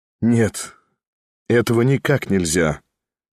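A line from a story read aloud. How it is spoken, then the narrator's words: Said with a dazzling smile. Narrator (Russian): великолепно улыбнулся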